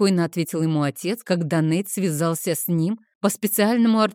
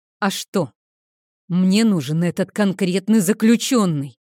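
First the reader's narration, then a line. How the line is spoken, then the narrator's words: Annoyed growl. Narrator (Russian): прорычал Нейтан, с досадой понимая, что отец во всем прав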